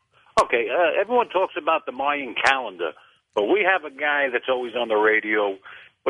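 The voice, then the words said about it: New York accent. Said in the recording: “you've got an accent like you got to be from New York somewhere.”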